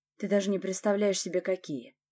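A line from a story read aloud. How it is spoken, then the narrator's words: Growl. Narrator (Russian): рыкнул Ярослав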